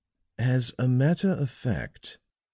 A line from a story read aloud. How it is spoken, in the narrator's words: said slowly